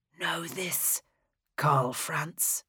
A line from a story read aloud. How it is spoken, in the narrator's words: Oswald whispered to him